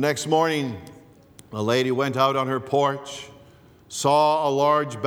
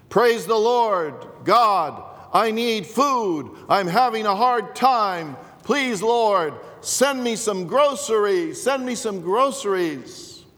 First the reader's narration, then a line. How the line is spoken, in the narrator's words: shouted